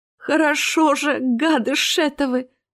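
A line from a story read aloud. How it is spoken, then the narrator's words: Groaned. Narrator (Russian): застонала она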